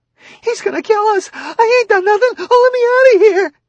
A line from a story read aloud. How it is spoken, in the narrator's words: In a sudden whirlpool of sobbing, she yelled